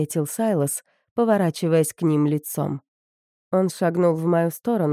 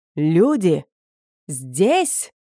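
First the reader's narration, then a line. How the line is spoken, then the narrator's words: Shouting. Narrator (Russian): закричал Скоттеди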